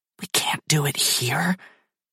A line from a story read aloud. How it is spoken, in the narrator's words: she whispers, voice quivering